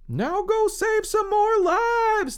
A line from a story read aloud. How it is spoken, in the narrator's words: they probably yelled